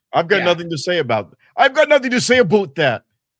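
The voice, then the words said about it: Weak Justin Trudeau impression. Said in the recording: “Was that your Justin Trudeau? ... Oh, God. You got a long way to go, bro.”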